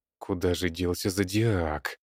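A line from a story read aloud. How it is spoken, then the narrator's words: Grumbling. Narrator (Russian): бурчал Петрович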